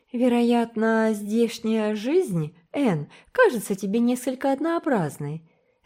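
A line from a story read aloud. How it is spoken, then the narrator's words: Patronizing tone. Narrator (Russian): заметила довольно покровительственным тоном приехавшая в гости знакомая по учительской семинарии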